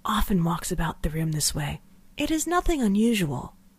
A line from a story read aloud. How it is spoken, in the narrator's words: she whispered